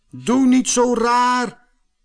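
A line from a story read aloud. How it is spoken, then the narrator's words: Little man calling angrily. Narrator (Dutch): riep het mannetje boos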